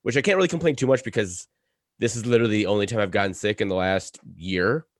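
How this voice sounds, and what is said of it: Slightly hoarse voice. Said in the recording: “my voice is a little hoarse. Picked up a cold”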